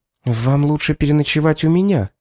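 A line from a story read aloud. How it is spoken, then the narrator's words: Quick whisper. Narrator (Russian): быстро шепнула ей мисс Фитт-Джеймс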